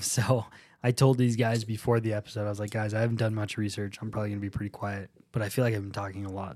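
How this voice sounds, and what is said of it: Strained, sick-sounding voice. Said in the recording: “I've been sick ... my voice is pretty strained. Like I'm like dragging right now.”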